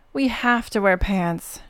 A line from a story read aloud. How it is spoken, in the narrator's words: grunted